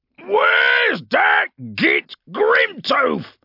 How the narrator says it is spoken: He bellowed

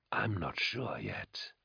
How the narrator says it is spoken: the rasping voice replied, gusting like rotten air from Carl's lips

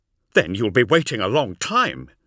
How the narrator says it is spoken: snapped Zahariel

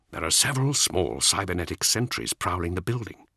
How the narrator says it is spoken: Ascalon whispered

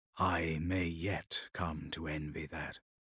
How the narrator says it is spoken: to himself he murmured

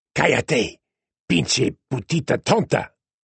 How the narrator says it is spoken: Asta snarled

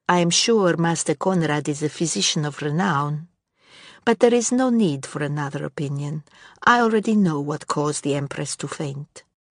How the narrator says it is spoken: she said smoothly

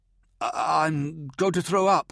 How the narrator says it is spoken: gasped Corran

